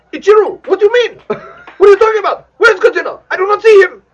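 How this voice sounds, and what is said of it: Fast, dumb dubbed-movie voice. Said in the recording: “I'm using my dumb voice on you. ... They always talk like this. ... It's always fast, like this.”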